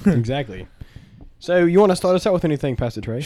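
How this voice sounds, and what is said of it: Put-on British accent. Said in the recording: “Why are you using that accent? ... You haven't used that accent in like since. ... bringing back the British side of me ... Don't use that accent.”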